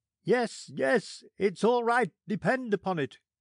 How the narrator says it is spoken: cried the sailors

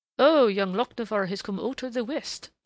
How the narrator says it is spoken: warbled McLean merrily

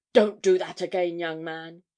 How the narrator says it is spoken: she exclaimed sharply

